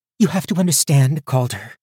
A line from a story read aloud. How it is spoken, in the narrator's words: she said desperately